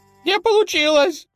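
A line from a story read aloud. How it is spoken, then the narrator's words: Squeaky. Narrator (Russian): пискнул тот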